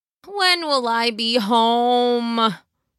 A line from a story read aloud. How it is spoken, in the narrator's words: Peter said out loud again, noticing how pitiful his voice sounded as he whined into the air to no one